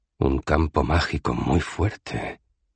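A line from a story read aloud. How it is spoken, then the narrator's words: Murmur. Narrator (Spanish): murmuró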